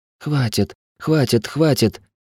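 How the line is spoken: Quiet, exhausted, dazed repetition. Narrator (Russian): тихо повторяла измученная проклятая, даже не осознававшая, где находится

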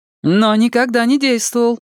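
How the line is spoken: Exclamation. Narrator (Russian): воскликнул Далай-лама

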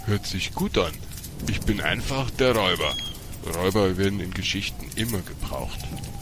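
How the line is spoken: Growling. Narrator (German): er knurrte

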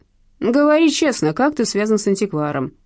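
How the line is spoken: Barked. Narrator (Russian): рявкнул Василий Макарович

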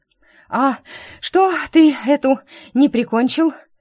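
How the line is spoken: Gasping, spitting out words. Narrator (Russian): Выплевывая слова, кажется, с частью своих легких, выдохнула я

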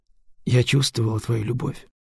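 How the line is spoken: Quiet. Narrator (Russian): тихо сказала Кира

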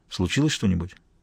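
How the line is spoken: Quiet question. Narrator (Russian): Мазур тихо спросил

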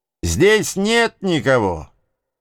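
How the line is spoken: Contemptuous yell. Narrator (Russian): Презрительно заорал Джим

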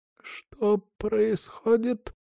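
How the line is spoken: Hoarse question. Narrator (Russian): охрипшим голосом спросил Артур

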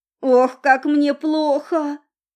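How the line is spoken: Moaning. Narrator (Russian): простонала девица

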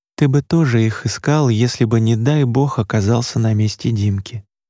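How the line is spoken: Quiet. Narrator (Russian): негромко произнесла Маша

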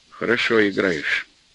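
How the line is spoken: Affectionate. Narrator (Russian): ласково взглянул на сына и сказал

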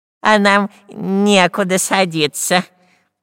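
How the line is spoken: Nasal spy. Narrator (Russian): прогнусавил шпион Дырка

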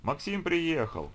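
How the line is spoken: Cheerful woman's exclamation. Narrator (Russian): весело воскликнула женщина, примерно такого же возраста

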